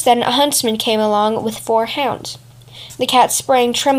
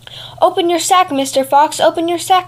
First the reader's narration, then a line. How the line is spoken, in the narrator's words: cried the cat